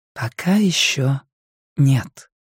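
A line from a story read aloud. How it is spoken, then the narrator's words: Soft, gentle. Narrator (Russian): мягко проговорила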